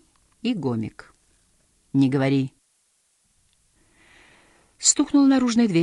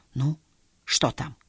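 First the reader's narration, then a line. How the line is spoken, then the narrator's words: Whisper. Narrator (Russian): прошептал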